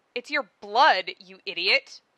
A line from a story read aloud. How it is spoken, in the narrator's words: Carquette snaps, blushing himself